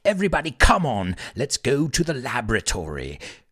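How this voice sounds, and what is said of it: Put-on British accent. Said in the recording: “I had to say that with a British accent. It just sounds better.”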